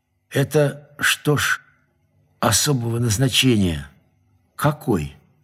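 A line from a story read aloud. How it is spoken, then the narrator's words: Quiet question. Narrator (Russian): я спросил тихо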